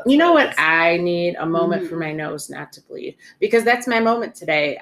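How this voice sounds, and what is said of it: Congested voice from a cold. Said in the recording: “I have a cold, so I sound really very, very whitish ... You got the sexy voice going”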